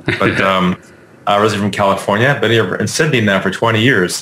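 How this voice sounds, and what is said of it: American accent. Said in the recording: “I'm originally from the U.S., so you probably caught the accent”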